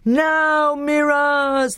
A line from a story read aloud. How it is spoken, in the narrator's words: they yelled